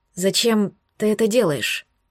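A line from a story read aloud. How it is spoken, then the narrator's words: Hoarse voice. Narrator (Russian): Мой голос прозвучал сипло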